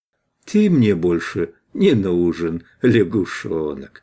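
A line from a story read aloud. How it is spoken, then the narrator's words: Soft and tender. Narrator (Russian): сказал Верховник мягко и ласково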